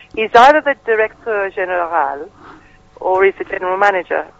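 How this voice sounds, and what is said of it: Exaggerated French Inspector Clouseau accent. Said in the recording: “Oh, that was really French, that, wasn't it? That was just reading it out in a Clouseau accent, that was.”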